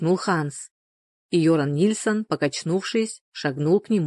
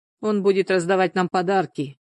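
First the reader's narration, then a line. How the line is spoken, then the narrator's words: Sarcastic, openly doubtful. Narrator (Russian): язвительно, не скрывая недоверия, произнес Ханс Блумберг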